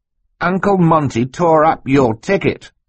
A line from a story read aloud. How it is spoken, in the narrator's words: Klaus replied triumphantly